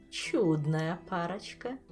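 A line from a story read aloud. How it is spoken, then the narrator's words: Purring. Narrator (Russian): мурлыкнула Камилла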